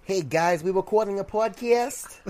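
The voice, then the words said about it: Imitates cartoon character Joey Wheeler. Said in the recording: “your Joey Wheeler impression”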